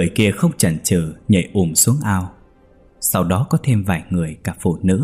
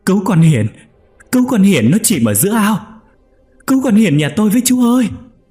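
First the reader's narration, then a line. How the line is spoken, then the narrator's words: Panicked shout. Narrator (Vietnamese): bà Hoa hét lớn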